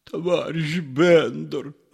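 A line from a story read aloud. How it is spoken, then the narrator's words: Pleading. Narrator (Russian): взмолился Воробьянинов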